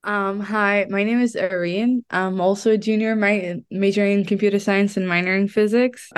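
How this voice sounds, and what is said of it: Sick, slightly odd-sounding voice. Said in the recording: “I'm a bit sick, so if I sound kind of weird”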